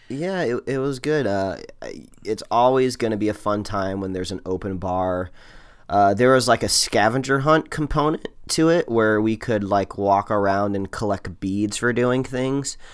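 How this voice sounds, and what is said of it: Hoarse, lower-pitched voice. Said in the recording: “I'm a little hoarse today ... my sexy voice ... a timber lower than usual”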